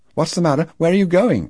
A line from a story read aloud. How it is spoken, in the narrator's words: cried Lo from the porch